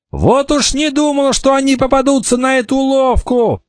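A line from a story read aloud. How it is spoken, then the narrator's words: Shouting. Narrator (Russian): закричал Кикаха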